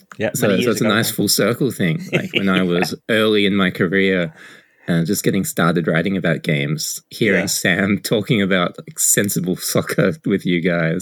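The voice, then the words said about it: Australian accent. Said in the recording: “people have probably picked up on your accent, you're an Australian”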